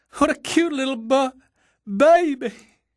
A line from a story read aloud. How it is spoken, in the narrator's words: she wailed